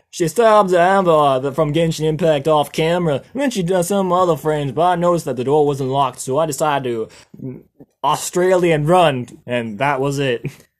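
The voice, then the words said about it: Put-on Australian accent. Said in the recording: “I dropped my Australian accent, my bad.”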